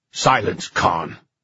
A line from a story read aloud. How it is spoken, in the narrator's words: snapped one of the others